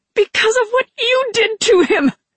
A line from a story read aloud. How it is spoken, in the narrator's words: she screeched